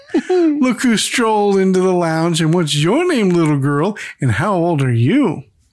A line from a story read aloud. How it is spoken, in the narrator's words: Alice giggles like a little girl and says